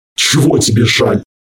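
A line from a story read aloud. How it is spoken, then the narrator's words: Snapping retort. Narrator (Russian): огрызнулся Харган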